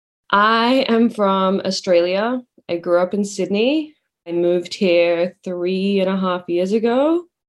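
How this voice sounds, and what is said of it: Mild Australian accent. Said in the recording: “I definitely have like a not a super strong accent ... Australian ... I get the UK a lot”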